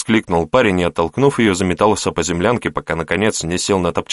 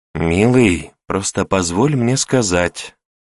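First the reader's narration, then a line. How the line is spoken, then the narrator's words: Languid female voice. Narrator (Russian): томным голосом произнесла она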